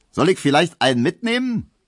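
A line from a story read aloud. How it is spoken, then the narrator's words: Cheerful call. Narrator (German): rief der fröhliche Leichenkutscher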